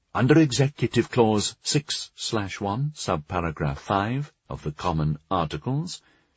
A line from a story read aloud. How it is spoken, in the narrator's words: she explained in a pleasant, obliging tone